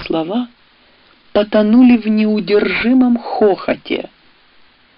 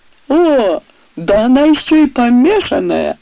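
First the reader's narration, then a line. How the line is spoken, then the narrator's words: Loud laughter. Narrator (Russian): хохотал поначалу пожалевший ее дикон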